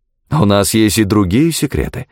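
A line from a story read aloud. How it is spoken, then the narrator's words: Exclamation. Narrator (Russian): воскликнул Нельсон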